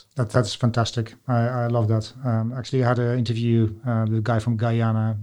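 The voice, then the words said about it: Dutch accent. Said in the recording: “In my accent, I'm Dutch”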